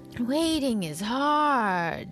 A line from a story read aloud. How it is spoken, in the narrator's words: sighed Pooh